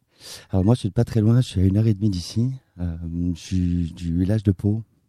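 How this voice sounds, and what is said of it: Speaks with a regional accent. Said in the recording (French): “cet accent”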